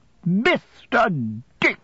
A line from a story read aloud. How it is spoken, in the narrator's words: said my aunt triumphantly